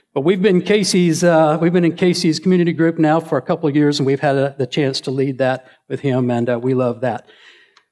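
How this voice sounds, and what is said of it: Southern Alabama redneck accent. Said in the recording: “This redneck dialect of mine will come out from Alabama”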